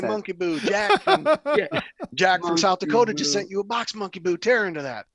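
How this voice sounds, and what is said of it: Put-on southern accent. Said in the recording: “he's got a southern accent.”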